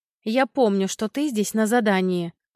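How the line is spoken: Snapping retort. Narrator (Russian): огрызнулась я

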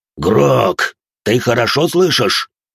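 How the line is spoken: Booming drone. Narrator (Russian): прогудел Спектр

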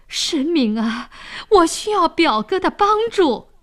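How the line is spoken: Pleading. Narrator (Chinese): 沈呆哀求说

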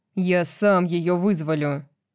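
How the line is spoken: Snapping back. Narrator (Russian): огрызнулся Рун

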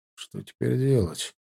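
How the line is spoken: Quiet question. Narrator (Russian): спросил тихо Ваня

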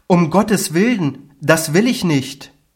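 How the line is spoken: Startled cry. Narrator (German): kam zur Besinnung und rief

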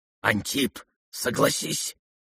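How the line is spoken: Quick distinct whisper. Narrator (Russian): Скорым и явственным шепотом подсказал боксер

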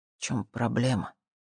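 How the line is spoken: Quiet question. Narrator (Russian): тихо спросил

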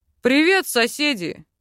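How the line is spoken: Deep bass from behind. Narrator (Russian): пробасил за его спиной второй ухажер

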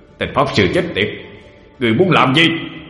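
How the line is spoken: Demonic roar. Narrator (Vietnamese): Đế quỷ gầm lên

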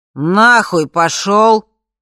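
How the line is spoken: Father's drunken voice. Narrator (Russian): ответил отец пьяным голосом

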